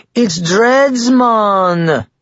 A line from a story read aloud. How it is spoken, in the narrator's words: another answered in a fake Jamaican accent